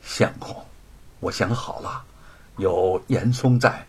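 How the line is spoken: Soft sighing. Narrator (Chinese): 白雪燕轻轻叹了口气说

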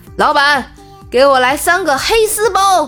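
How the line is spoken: Loud, blurted. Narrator (Chinese): 他大声脱口而出

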